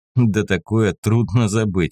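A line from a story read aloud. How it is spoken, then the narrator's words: Short laugh. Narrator (Russian): хохотнула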